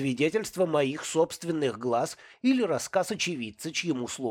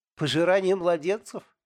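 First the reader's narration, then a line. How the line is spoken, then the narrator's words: Laughing woman. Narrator (Russian): она рассмеялась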